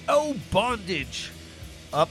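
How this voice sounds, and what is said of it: Bad put-on English accent. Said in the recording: “I had to say that with an English accent. Really terrible English accent.”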